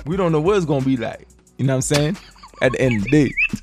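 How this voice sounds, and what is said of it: Sudden put-on accent. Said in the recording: “Where did this accent come from?”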